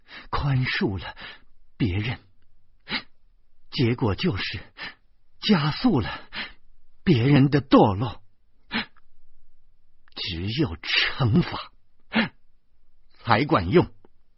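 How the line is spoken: Gasping, word by word. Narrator (Chinese): 严明终于说话了，他一字一喘气儿的说

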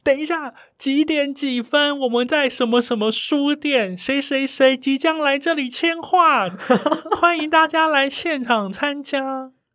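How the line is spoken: Shouting through a megaphone. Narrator (Chinese): 我就拿着大声公，在门口大喊

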